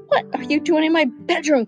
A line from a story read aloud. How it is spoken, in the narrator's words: cried the king